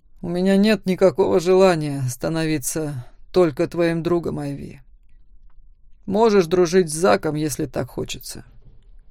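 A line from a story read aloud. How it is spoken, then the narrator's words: Calm smirking. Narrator (Russian): хмыкнул Макс, продолжая спокойно следовать за мной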